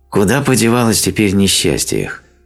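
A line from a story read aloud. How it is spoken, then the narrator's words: Sighing, mildly annoyed. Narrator (Russian): спросил он, вздохнув с легкой досадой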